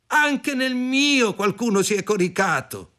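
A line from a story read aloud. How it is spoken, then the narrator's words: Several voices shouting. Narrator (Italian): Gli altri gridarono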